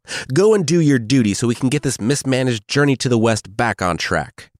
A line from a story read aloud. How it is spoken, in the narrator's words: Pixie yelled